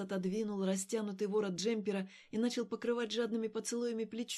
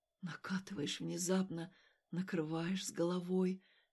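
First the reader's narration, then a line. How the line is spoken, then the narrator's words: Whisper. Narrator (Russian): шептал он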